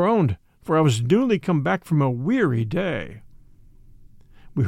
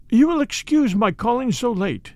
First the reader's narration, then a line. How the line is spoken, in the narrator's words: began, suddenly losing her self-control, sobbed